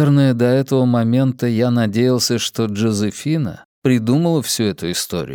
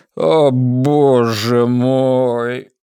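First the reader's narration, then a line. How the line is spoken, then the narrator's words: Strained, forced out. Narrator (Russian): выдавил он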